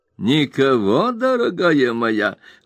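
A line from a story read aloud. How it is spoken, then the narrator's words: Sly exclamation. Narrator (Russian): лукаво воскликнул мистер Потт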